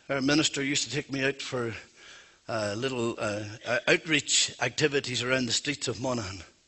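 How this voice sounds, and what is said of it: Irish Monaghan accent. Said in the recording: “that's where I'm from, if you don't already know by the accent”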